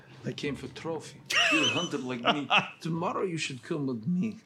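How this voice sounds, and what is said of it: Russian or Eastern European accent. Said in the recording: “Oh, he's an accent. ... Oh, he's Russian. ... He's like Russian, or Eastern European.”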